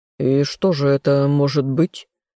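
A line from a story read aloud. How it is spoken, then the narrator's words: King's amused snort. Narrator (Russian): хмыкнул король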